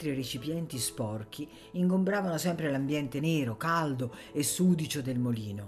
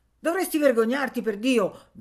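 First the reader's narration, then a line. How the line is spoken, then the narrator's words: Peasant shouting. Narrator (Italian): gridava il contadino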